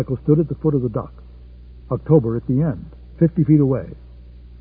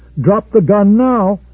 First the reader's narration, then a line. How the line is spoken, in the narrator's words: Michael yelled